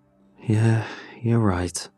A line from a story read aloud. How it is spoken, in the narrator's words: I said